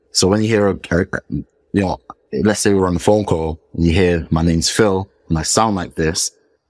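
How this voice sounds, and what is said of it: British accent. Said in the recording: “the fact that I've lived in the UK for most of my life, my accent as well is something that people are familiar with”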